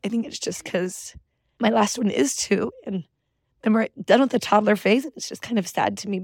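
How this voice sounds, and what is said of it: Emotional, choked-up voice. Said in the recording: “I don't know why I'm getting emotional about this either”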